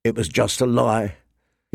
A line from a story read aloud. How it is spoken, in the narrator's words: he said bitterly